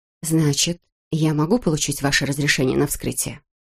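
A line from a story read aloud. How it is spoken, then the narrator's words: Quiet. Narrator (Russian): Госпожа Лэйси тихо сказала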